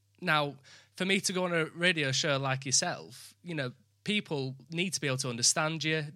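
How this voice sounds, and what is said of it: Northern English accent. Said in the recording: “I apologize for my accent... I'm from the north of England”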